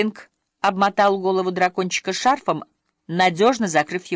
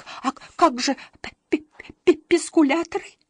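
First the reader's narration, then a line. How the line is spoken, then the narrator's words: Sob. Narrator (Russian): всхлипнул Беззубик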